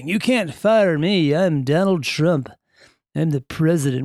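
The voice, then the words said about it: Donald Trump impression. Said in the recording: “That's not a good impression, is it? That's not bad, though, right? It's better than some folks.”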